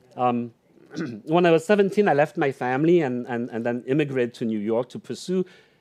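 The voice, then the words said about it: Unusual foreign accent. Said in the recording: “I have a very strange accent.”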